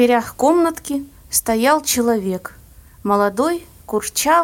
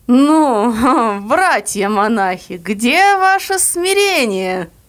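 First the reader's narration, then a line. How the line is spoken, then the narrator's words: Ringing voice with chuckle. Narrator (Russian): кто-то сзади сказал звучно с хохотком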